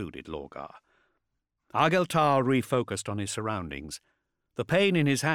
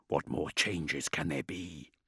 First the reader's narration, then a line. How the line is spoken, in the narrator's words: Raum laughed, whisper faint and teasingly distant